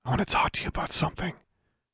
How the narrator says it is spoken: whispered

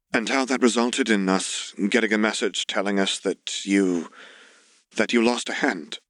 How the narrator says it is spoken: his aunt added lightly, even as her voice wavered when it landed on his prosthetic right hand

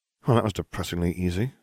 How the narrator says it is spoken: I muttered

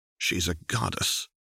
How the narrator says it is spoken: Renata said softly

